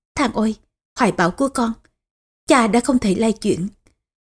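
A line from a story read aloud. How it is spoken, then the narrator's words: Soft sigh. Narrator (Vietnamese): Tô Hậu khẽ thở dài, nói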